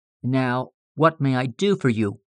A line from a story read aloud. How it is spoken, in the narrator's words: asked Dunham in a quiet, businesslike tone, as if it were his privilege and right to do all that was to be done